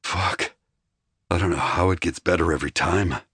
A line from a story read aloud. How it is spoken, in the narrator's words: he muttered, almost to himself